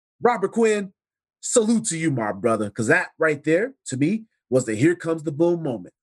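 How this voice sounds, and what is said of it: Slightly raspy voice. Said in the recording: “my voice is a little raspy right now”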